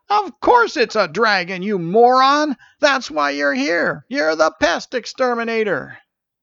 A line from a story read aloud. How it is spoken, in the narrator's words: Marlin yelled